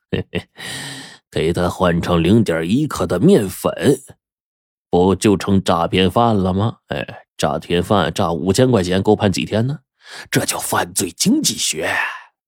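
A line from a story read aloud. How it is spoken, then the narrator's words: Sinister laugh. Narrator (Chinese): 花脸狼阴笑了一声，说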